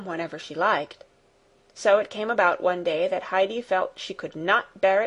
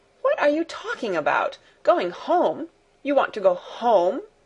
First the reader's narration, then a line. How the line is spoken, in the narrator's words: exclaimed Fräulein Rottenmeier, her anger rising